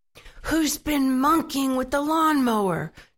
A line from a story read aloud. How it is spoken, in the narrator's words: shouted Mr